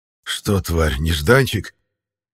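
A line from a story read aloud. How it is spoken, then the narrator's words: Hoarse. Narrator (Russian): хрипло произнес я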